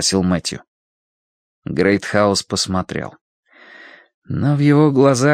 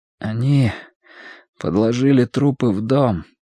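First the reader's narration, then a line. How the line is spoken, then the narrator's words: Slightly trembling voice. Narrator (Russian): сказал Мэтью слегка дрогнувшим голосом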